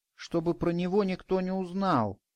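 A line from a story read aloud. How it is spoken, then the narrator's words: Quiet. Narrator (Russian): тихо сказал он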